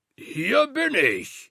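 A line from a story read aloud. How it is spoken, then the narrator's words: Bellowing into the wind. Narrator (German): brüllte er in den Wind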